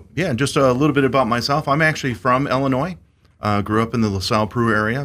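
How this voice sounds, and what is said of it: Radio announcer style voice. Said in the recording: “he's got a radio voice”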